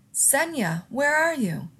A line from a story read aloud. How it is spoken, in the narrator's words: someone else shouted